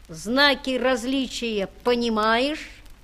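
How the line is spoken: Boy, mocking. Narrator (Russian): сказал мальчик насмешливо

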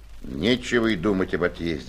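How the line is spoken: Gloomy. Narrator (Russian): сказал мрачно

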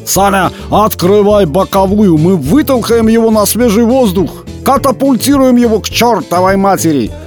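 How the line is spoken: Shouting. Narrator (Russian): закричал артист Бабаян

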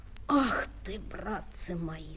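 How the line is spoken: Guide speaking in undertone. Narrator (Russian): сказал вполголоса проводник

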